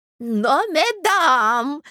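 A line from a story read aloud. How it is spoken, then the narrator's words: Shout. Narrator (Russian): закричал князь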